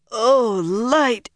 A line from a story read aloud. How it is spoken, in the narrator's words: she moaned